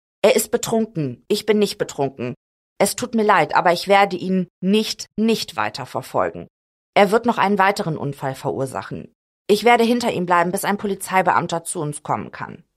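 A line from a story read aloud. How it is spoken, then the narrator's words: Plain. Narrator (German): sagt Payne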